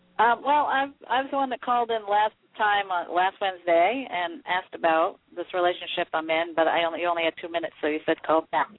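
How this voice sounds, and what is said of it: Heavy Maine accent. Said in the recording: “I love that Maine accent that I'm hearing. ... A heavy one, yes.”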